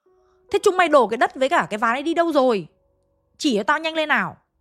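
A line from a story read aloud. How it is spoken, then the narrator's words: Almost shouting. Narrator (Vietnamese): Ông nói ông như là quát ấy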